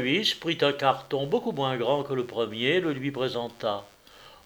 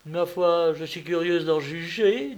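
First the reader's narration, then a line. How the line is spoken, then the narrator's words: Young woman laughing. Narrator (French): dit en riant la jeune fille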